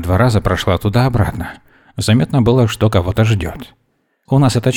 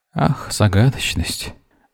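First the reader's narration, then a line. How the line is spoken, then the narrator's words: Disappointed sigh. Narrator (Russian): Разочарованно вздохнула Вера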